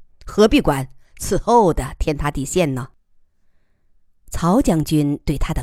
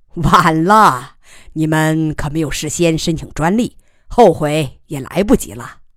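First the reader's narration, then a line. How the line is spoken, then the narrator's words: Laughing loudly. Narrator (Chinese): 曹将军大笑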